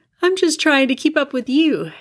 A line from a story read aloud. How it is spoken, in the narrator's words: yawned